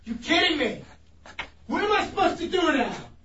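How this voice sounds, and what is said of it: Yelling angrily. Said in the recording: “Stop yelling!”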